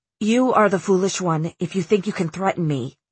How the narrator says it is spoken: Elias said, but his voice trembled like his wings

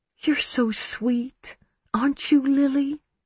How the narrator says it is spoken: she cooed

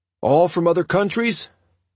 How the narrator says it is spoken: I shouted to Fidel above the music

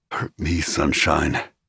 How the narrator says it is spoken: he murmured

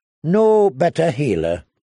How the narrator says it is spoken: agreed wearily

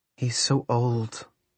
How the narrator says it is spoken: she murmured

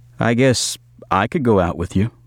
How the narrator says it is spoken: I said

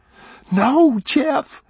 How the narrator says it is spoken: she begged

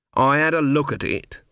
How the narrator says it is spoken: said Granny coldly

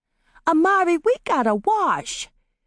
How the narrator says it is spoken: Tidbit piped up

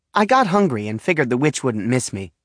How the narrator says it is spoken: she says, cheerfully enough

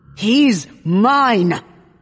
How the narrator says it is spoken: he snarls

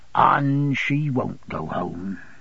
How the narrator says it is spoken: he interposed, shaking his head mournfully

